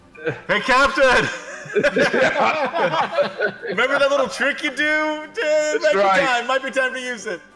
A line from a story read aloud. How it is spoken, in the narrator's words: Adwala yells